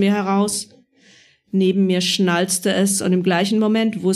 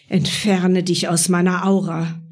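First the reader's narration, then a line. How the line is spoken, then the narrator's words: Quick hiss. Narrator (German): zischte Marie prompt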